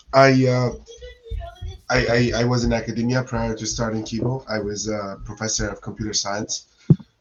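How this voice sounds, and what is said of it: Slightly hoarse voice. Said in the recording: “My voice is a bit hoarse today. I've been something kind of cold. I don't think I've quite recovered from it yet.”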